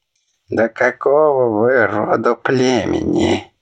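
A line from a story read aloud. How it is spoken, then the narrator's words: Displeased old man muttering. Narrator (Russian): Недовольно бормотал старейшина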